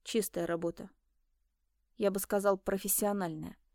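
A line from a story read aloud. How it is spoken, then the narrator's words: Muttered. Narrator (Russian): пробормотал инспектор Бернинг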